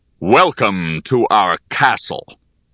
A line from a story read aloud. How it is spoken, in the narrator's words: thundered a powerful voice